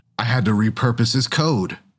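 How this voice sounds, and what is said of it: Gravelly Clu voice, Jeff Bridges. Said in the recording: “do a Clue voice? ... Anyone know how to do it, Jeff Bridges? ... Just do a gravelly voice”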